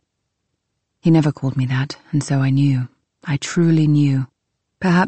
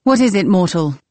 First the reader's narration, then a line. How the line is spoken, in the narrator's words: My voice was loud